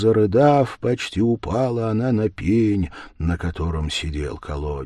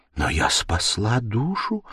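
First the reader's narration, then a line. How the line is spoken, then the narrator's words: Quiet. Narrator (Russian): сказала она тихо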